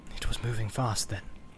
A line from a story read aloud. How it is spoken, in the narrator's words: muttered